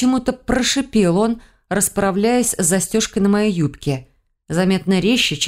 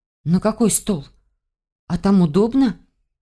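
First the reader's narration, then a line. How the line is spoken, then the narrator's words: Nervous, shaky breath. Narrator (Russian): Прерывисто вздохнув, спросила я, разволновавшись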